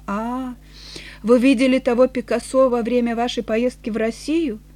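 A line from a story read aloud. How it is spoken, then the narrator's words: Shaken, sighing. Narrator (Russian): побледнел, Почти содрогнувшись, он вздохнул и сказал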